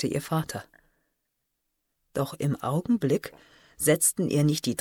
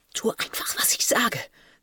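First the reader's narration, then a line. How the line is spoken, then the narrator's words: Hissed. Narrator (German): zischte sie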